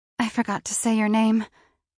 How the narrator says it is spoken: I said, still panting

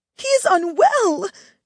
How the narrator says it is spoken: she cried

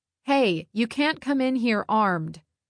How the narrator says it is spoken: I called out

